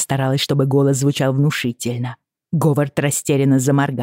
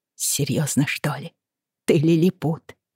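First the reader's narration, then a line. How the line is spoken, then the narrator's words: Hissed. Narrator (Russian): прошипела Бриана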